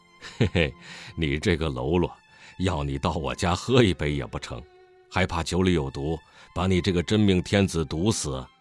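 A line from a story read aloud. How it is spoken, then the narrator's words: Cheerful grinning. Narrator (Chinese): 祖父笑嘻嘻说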